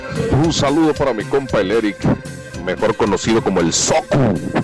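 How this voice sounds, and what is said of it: Radio announcer-style voice. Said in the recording (Spanish): “traes voz de locutor.”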